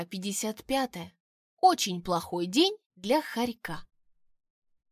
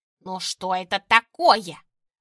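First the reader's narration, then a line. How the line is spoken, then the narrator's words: Hissed. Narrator (Russian): прошипел он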